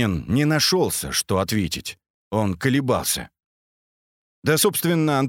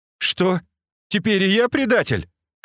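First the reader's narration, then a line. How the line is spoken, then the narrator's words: Shouted. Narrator (Russian): крикнул он, обращаясь к Антонову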